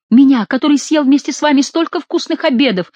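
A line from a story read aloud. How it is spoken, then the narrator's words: Shouting through sobs. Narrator (Russian): выкрикивал сквозь рыдание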